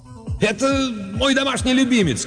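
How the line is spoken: Shout with forced smile. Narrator (Russian): крикнул он пьяницам, с трудом выдавив улыбку

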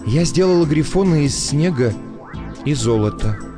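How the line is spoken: Surprised whisper. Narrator (Russian): прошептала она удивленно, словно все это получилось у нее ненарочно

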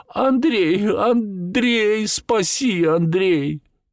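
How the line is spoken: Shriek. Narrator (Russian): взвизгивает

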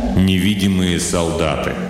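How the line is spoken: Joyless snort. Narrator (Russian): Бол невесело хмыкнул

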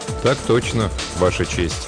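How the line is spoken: Quiet reply. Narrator (Russian): тихо отозвался Михаил

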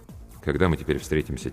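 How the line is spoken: Quiet question. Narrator (Russian): тихо спросил я

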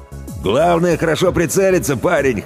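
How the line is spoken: Amused grunt. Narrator (Russian): хмыкнул Дугач

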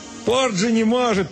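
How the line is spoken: Shouted. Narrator (Russian): прокричал он

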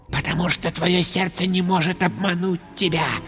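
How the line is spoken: Whisper. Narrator (Russian): прошептал Шай

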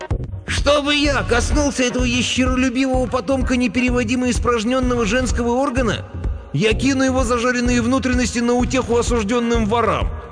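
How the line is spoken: Roaring. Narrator (Russian): всадник на драконе взревел

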